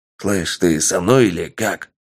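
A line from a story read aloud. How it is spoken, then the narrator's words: Thug asking quietly. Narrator (Russian): негромко спросил один из бандюганов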